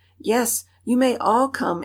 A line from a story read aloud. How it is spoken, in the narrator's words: exclaimed Mama Bobbsey